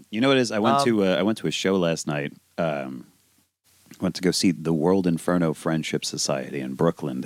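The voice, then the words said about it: Raspy, strained voice. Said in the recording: “My voice is real raspy today ... my vocal cords are just shredded”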